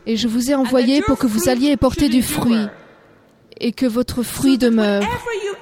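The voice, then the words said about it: Irish accent speaking French. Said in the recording (French): “Je suis née en Irlande, comme vous pouvez l'entendre par mon accent.”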